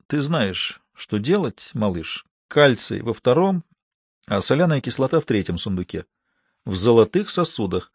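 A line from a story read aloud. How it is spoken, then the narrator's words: Quiet. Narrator (Russian): тихонько сказал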